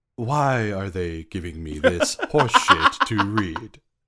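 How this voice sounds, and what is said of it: Impression of snarky movie narrator. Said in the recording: “That was a pretty dead-on impression”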